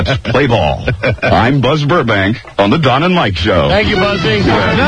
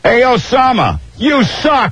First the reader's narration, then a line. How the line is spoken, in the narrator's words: one fan yelled